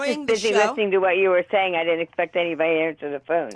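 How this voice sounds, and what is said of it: East Coast accent. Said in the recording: “I hear an accent. ... From the East Coast”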